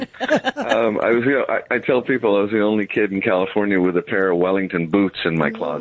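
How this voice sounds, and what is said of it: Slight California accent. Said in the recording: “a bit of that California accent”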